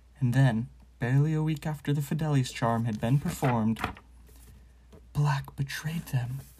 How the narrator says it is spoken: breathed Madame Rosmerta

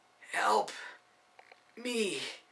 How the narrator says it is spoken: Nicholas gasped with effort and feeble hope

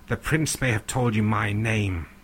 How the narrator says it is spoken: he snarls

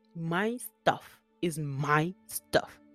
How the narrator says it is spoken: he snapped back

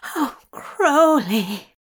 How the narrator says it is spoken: Zira groaned

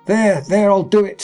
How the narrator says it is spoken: screamed Bellingham

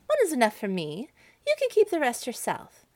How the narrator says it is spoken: she only giggled ... and said

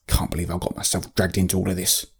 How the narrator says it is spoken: Trebernicus muttered

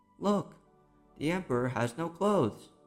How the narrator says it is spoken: one little boy called out

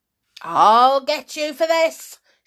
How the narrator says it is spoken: shouted Mrs

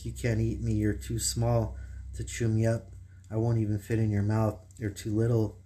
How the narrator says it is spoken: I said to it in a shaky, scared voice

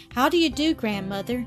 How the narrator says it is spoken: called out

